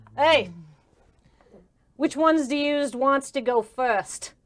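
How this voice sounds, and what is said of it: Character voice for Parvis. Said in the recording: “I gotta do my Parvis voice.”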